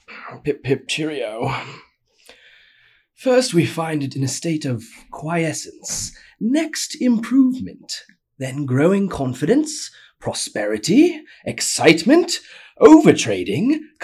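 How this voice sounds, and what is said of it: Exaggerated posh British accent. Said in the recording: “I'm going to do my best at a really posh British accent.”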